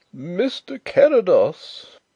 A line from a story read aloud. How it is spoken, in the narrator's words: wailed the poor old gentleman in a tremulous bleat